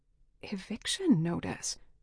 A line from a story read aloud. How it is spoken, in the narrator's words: I whispered